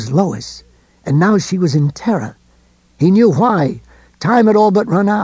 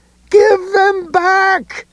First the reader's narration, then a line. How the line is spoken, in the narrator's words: Ed screamed